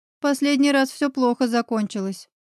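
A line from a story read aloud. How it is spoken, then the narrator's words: Dry reply. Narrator (Russian): сухо ответила я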